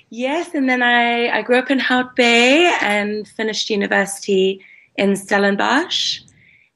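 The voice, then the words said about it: Slight refined Cape Town South African accent. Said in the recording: “I can still hear a little bit of your accent comes through every now and then ... We can hear the Cape Town, because that's definitely not a Joburg accent. It's a little bit more refined.”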